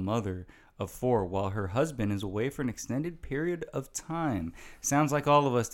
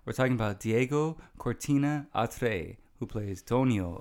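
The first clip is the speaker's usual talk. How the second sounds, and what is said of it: Slight put-on accent on names. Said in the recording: “am I starting to add a little accent there? You're right, I am.”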